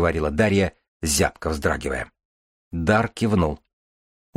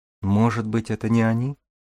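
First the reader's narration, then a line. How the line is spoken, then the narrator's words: Timid young woman. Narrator (Russian): робко предположила девушка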